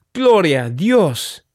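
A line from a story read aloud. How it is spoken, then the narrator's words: Exclaimed. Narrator (Spanish): exclamó ella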